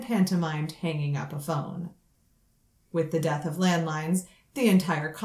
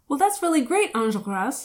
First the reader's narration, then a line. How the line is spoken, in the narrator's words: he blurted, at about twice the speed of normal conversation